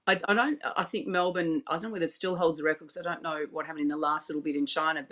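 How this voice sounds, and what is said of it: Australian accent. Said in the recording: “my accent shows that I'm from Australia”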